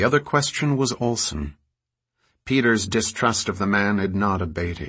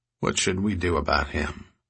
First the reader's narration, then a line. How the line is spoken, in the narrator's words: Hollis asked quietly